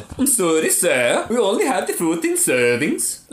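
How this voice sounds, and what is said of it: Put-on French accent. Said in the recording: “Why am I doing a French accent?”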